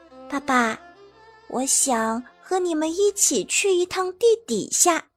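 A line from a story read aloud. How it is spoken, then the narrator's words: Soft. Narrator (Chinese): 我又轻声对爸爸说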